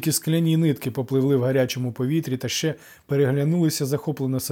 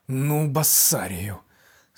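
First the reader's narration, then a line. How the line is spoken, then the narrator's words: Angry hiss. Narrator (Ukrainian): сердито прошипів чи то Гермій, чи то змії з його жезла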